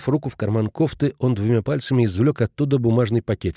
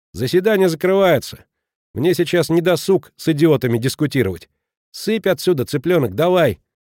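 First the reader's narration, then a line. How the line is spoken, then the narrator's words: Shout after someone. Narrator (Russian): брат закричал ей вслед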